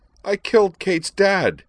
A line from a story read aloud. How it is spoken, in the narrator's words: she cried